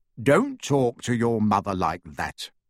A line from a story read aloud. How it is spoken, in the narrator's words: said Mr